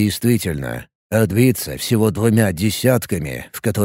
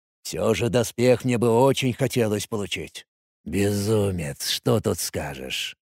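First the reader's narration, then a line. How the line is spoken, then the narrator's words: Quiet hiss to self. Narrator (Russian): Скорее сам себе тихонько прошипел я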